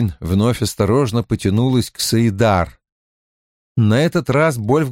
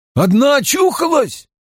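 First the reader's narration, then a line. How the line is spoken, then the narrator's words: Frightened shout. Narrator (Russian): закричал чей-то испуганный голос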